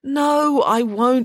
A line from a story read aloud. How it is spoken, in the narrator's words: said Friday with a yawn